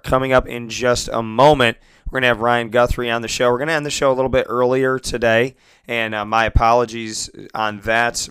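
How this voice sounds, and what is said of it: Strained, worn-out voice. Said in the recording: “I lost my voice last week ... my throat is definitely taking a beating this morning ... losing my voice”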